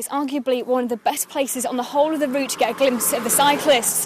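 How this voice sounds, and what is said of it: Out of breath, panting while talking. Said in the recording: “As you can hear, I'm a little bit out of breath because it's quite steep.”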